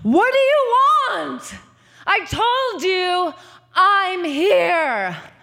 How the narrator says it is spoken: at last she screamed

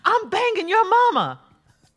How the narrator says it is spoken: They both had had too much to drink, so David got fed up and yelled

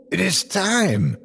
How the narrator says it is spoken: he exclaimed

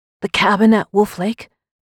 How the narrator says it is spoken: said, my voice strained

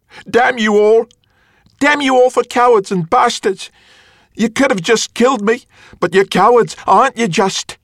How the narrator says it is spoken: she screamed after them

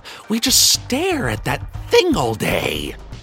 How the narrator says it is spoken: they sneered, lovingly

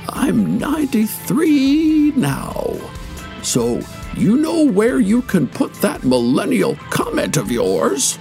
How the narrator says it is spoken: He then said hoarsely

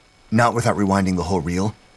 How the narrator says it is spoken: Hammond said quickly

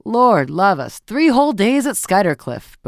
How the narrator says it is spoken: Beaufort was saying in his loud, sneering voice

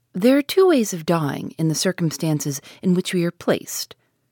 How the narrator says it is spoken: he said calmly

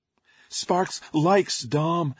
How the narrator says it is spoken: Basher blurted

